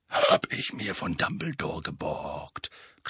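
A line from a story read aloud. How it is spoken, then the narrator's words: Growling. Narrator (German): knurrte Moody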